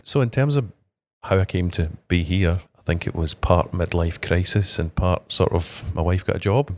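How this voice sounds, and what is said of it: Scottish accent. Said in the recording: “was it Irish accent? ... Scottish.”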